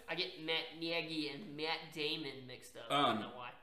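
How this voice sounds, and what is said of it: Odd put-on accent. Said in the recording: “I don't know what that accent was.”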